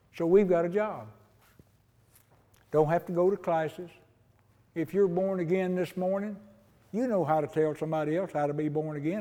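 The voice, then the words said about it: Southern rural American hillbilly accent. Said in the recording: “Listen to this hillbilly accent I got”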